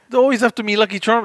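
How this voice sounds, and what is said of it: Bad put-on Irish accent, sounds Scottish. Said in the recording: “my terrible accent? ... it's terrible ... trying to do an Irish accent, but it literally sounds Scottish”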